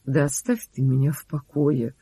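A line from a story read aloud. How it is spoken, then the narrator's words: Gloomy. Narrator (Russian): сказал мрачно Юрига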